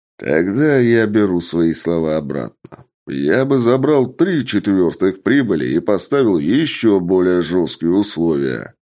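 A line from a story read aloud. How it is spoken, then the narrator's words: Big man laughing. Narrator (Russian): рассмеялся здоровяк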